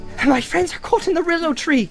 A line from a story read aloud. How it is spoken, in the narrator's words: cried Frodo breathlessly